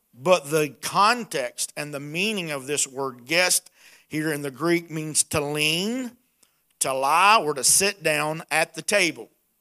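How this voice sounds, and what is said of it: Hillbilly accent. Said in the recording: “with my hillbilly accent, it won't come out right at all”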